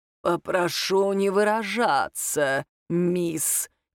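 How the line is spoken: Prim creaky voice. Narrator (Russian): чопорно проскрипел он

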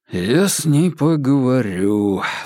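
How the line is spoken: Sigh. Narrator (Russian): вздохнул Вербин

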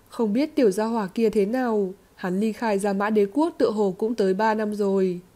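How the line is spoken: Sighing after long silence. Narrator (Vietnamese): Hải Ba Đông ... trầm mặc một lúc mới thở dài nói

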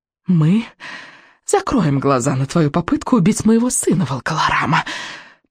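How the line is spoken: Witch hissing. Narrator (Russian): прошипела ведьма

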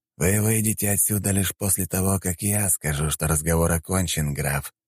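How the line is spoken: Plain. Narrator (Russian): сказал Игнатий

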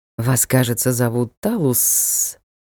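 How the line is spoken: Hissing voice. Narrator (Russian): В его голосе явно послышалось шипение

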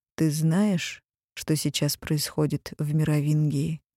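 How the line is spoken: Unexpectedly gentle question. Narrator (Russian): Неожиданно мягко спросил

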